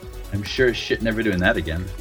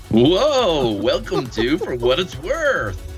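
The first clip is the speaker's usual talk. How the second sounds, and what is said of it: Wacky radio DJ voice. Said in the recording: “Stupid, wacky DJ voice ... the wacky DJ voice”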